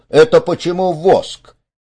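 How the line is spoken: Exclaiming. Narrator (Russian): помещик воскликнул

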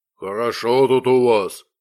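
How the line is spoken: Deep bass voice. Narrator (Russian): пробасил медведь

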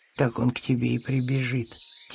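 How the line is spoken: Quiet hedgehog voice. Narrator (Russian): тихо сказал ежик

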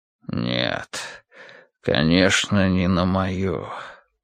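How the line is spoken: Hollow, muffled voice. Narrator (Russian): глухо произнес Янтарь

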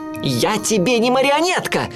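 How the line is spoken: Shouted. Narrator (Russian): крикнул он

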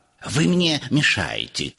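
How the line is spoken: Hissing. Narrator (Russian): шипел он

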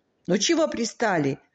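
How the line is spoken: Desperate shout. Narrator (Russian): отчаянно крикнул Сережа

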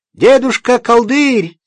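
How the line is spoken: Shouting with all strength. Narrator (Russian): закричал он изо всех сил

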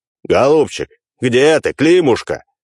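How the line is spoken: Long shouting until hoarse. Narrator (Russian): Часа два кричал землемер, и только после того, как он охрип

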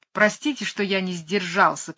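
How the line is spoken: Shouting. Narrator (Russian): кричал он

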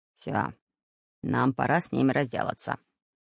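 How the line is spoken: Hoarse rasp. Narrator (Russian): прохрипел Буль-Буль

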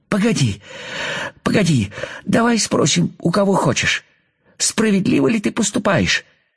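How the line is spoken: Pleading. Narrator (Russian): взмолился муравей

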